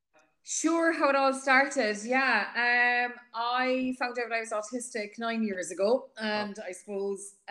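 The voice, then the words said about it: Strong Cork Irish accent. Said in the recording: “That's a strong Cork accent”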